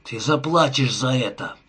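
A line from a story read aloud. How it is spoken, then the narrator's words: Growled. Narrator (Russian): прорычал Джонни, свирепо глядя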